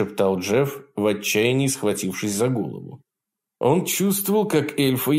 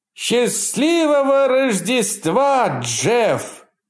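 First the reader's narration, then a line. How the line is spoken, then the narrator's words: Shouted in chorus. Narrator (Russian): хором прокричали они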